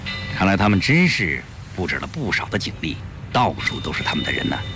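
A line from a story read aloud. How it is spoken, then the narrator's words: Low quiet voice. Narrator (Chinese): 鲁鱼低声说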